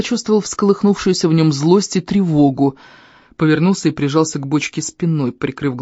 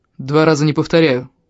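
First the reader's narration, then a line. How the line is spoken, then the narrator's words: Cold reply. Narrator (Russian): холодно ответил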